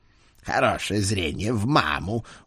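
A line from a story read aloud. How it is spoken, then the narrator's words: Satisfied grunt. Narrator (Russian): удовлетворенно хмыкнул Эд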